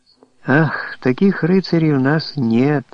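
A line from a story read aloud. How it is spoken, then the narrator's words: Mildly disappointed, sighing. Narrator (Russian): с легким разочарованием произнесла она, вздохнув невольно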